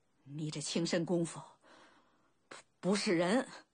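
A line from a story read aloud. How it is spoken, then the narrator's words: Heavy panting. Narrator (Chinese): 鲁仲连大喘着气道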